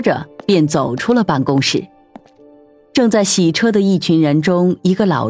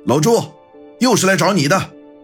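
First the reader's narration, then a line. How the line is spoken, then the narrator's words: Calling out loudly. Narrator (Chinese): 老板朝着正在洗车的一群人喊道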